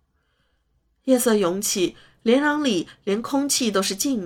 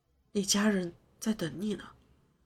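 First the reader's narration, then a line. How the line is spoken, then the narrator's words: Low quiet voice. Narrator (Chinese): 他终于低声说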